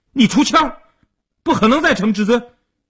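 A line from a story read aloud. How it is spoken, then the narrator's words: Anxious loud shout. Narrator (Chinese): 阿生一看急了，大声地嚷道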